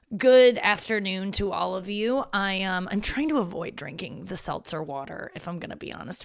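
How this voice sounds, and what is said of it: Gravelly, husky voice. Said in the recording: “My voice is coming in real gravelly today ... I'm husky as shit”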